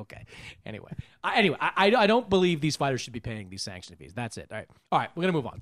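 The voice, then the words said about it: Yelling, raised frustrated voice. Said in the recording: “don't yell at me ... You are yelling ... I'm yelling in general because this frustrates me ... Don't raise your voice at me”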